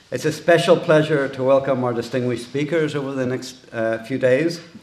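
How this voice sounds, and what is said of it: Irish accent. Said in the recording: “this Irish accent”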